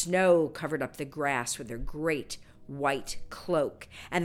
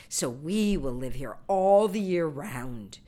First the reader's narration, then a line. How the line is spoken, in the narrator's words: they cried